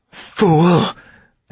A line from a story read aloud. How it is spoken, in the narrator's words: Amarantha spat